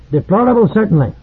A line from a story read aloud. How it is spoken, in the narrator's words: squeaked the Grand Master